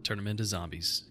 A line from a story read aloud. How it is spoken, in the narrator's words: he muttered